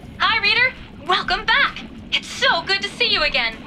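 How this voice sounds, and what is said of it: Funny voice through helmet equipment. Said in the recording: “my voice sounds a little funny ... we need to talk to each other through the equipment in our helmets”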